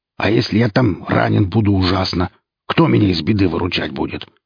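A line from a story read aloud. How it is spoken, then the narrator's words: Growling, yapping voice. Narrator (Russian): Кто-то зарычал и тявкнул голосом Рута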